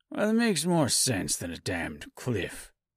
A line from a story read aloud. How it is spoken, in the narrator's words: he muttered under his breath